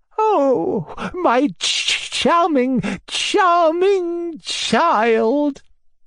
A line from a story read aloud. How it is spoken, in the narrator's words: he cried